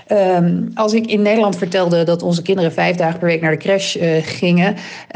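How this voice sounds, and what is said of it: Standard Dutch, no rolled R. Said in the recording (Dutch): “Wat een lekker accent heeft zij ... gewoon lekker beschaafd, lekker ABN ... geen rollende R, gewoon lekker de R”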